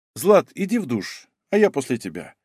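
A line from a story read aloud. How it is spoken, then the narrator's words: Calm address. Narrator (Russian): спокойно обратился я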